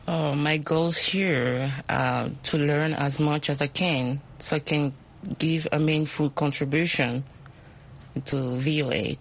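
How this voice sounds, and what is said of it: Speaks with an accent. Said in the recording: “My accent. ... We love accents. We all have accents.”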